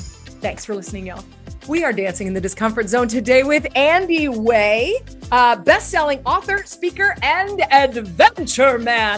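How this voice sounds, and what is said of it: Excited, energetic voice. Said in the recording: “tell from my voice, I'm very excited.”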